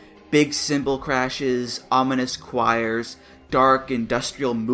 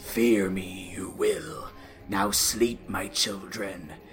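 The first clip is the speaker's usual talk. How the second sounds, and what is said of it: Scary, menacing character voice. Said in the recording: “in a scary voice.”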